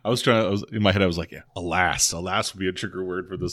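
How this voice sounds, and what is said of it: Usual voice. Nothing is said of it.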